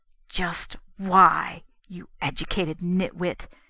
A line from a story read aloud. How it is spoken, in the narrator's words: snarled at himself